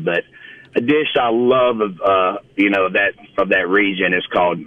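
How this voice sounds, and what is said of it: Mississippi Southern accent. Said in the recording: “my Mississippi accent”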